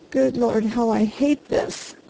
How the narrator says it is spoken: groaned the harvester

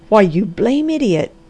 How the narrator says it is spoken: cried Dr

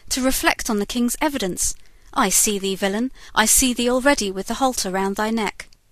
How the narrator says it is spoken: exclaimed the judge

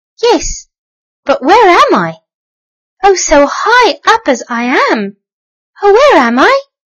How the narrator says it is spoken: squeaked the little mouse

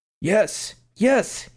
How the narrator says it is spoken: he cried

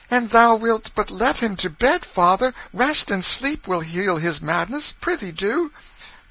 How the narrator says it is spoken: The girls began to plead timidly for their brother, and Nan said

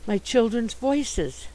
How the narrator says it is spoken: he exclaimed

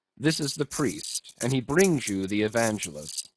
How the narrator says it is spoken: said Don Sebastian gravely

